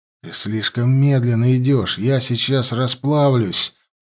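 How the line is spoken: Moaning. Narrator (Russian): простонал Теонард

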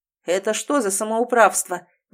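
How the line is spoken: Roar. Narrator (Russian): взревел Грегхэм

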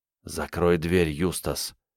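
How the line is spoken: Insistent whisper. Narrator (Russian): настойчиво шепнул Ник

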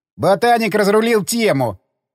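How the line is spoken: Chuckle. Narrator (Russian): хмыкнул Егор

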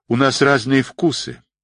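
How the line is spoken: Cold smiling tone. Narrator (Russian): холодно улыбнулась Кнутова

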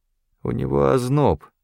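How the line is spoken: Gloomy. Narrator (Russian): мрачно сказал Талер

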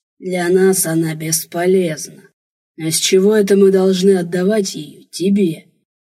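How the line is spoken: Hoarse guttural growling. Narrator (Russian): Рычание, хриплое, гортанное, целая серия странных звуков

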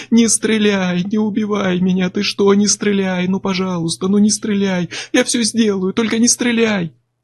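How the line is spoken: Screaming, sobbing plea. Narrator (Russian): Он кричал, рыдал и всхлипывал

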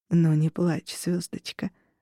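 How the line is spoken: Gentle whisper. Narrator (Russian): прошептал Унар

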